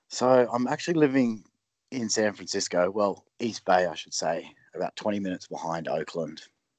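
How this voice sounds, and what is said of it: Australian accent. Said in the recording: “people obviously hear the Aussie accent.”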